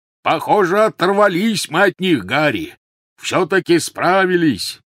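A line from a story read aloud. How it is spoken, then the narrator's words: Shout. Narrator (Russian): крикнул Хагрид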